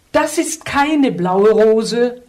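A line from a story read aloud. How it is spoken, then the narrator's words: Princess calling. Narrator (German): rief die Prinzessin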